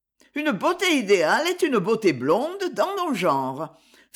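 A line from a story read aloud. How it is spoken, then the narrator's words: Laughing. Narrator (French): fit Ferdine en riant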